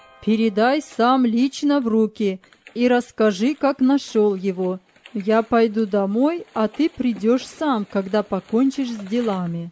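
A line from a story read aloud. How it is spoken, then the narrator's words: Loud. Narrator (Russian): Андрей Николаевич громко сказал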